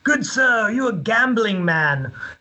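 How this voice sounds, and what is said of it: English accent. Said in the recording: “he's British... my parents have the English accent”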